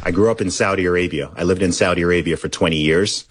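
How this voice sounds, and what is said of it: Mostly American accent, slight British. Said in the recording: “you're British, but what happened to the accent? Where's the accent? ... I don't think my accent is 100%. Americanized. It's sort of maybe 80% American, 20% British. It's just a weird hybrid international thing.”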